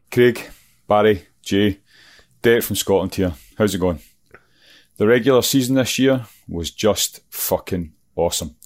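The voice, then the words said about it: Scottish accent. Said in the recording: “the Scottish accent is one of the best ones that there is out there ... he's got an awesome accent”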